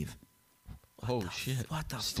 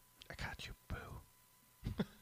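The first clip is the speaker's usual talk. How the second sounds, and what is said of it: Whispered line. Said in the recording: “I heard a whisper.”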